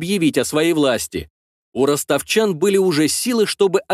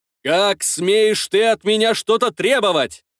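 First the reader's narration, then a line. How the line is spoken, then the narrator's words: Shouting. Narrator (Russian): кричал великий князь Изяслав Мстиславич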